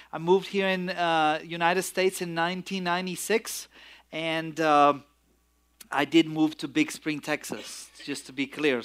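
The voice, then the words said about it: Romanian accent in English. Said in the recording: “my accent is, it's not from West Texas ... I'm from Romania originally”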